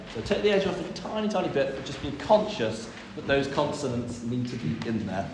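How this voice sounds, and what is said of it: Birmingham (Brummie) accent. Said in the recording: “I've been in Birmingham all my life, okay? Can you not tell by the accent?”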